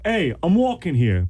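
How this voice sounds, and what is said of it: Put-on New York accent. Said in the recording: “You don't have a New York accent ... Now I can do it. I can be like”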